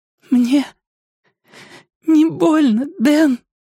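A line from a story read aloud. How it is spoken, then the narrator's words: Sobbing. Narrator (Russian): всхлипнула она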